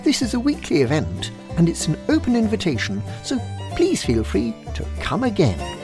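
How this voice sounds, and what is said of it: British accent. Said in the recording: “Somehow it sounds more real in that accent, doesn't it? Must be something about being British.”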